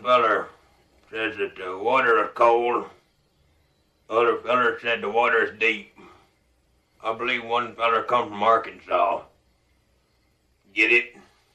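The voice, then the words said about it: Billy Bob Thornton's Carl character voice. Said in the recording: “Billy Bob Thornton's Carl from 1998's Sling Blade”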